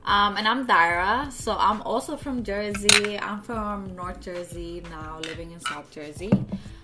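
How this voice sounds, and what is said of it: Slight non-native English accent. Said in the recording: “that's why you hear a little bit of an accent. ... it's just never gonna leave at this point ... She says vibe. Like, it's not with a B. She says it with a V.”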